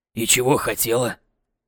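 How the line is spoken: Hoarse cracking voice. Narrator (Russian): В сиплом голосе Жорика вдруг прибавилось трещинок

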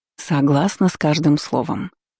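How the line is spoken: Purring. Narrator (Russian): мурлыкнула Ванда

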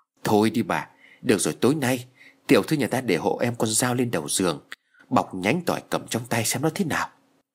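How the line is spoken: Trembling reply. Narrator (Vietnamese): run rẩy đáp lại

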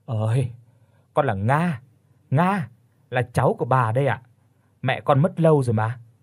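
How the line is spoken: Weary sigh. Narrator (Vietnamese): có một chút mệt mỏi mà thở dài

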